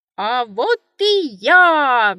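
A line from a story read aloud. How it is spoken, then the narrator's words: Loud shout. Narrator (Russian): громко крикнул хозяин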